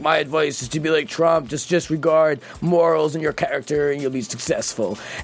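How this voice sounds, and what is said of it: Impression of Baldwin. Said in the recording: “good impression.”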